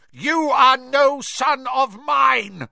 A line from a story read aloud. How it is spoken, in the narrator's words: bellowed Mr